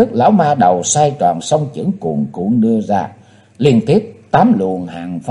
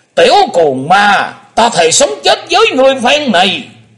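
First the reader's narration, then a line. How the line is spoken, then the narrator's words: Old man's hateful shout. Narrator (Vietnamese): lão nhân lùn béo quất hận quát lên lòng lòng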